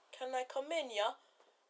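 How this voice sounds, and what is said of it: Poor put-on Jamaican accent. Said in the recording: “all Jamaican. I'm going to have a horrible Jamaican accent.”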